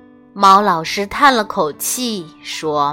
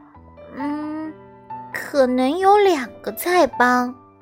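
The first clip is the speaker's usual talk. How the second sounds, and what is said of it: Quiet, soft-spoken small voice. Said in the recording (Chinese): “小声说”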